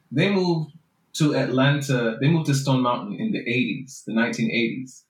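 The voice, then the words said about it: Jamaican accent. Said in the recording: “my parents are from Jamaica ... I talk this way ... I want for people to know exactly where my ancestors come from as soon as they hear my voice ... more of my accent”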